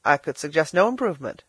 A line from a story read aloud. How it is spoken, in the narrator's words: said Philip